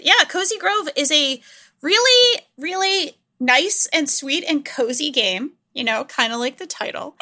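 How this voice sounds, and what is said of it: Speaks with a noticeable accent. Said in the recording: “that's a really hard word for me to say with my accent.”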